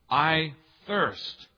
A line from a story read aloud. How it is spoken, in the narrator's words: John records Jesus gasping